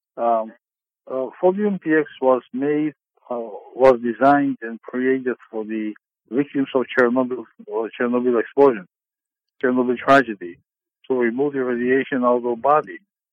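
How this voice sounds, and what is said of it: Non-native English accent. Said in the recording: “I do have an accent. It's not my mother language”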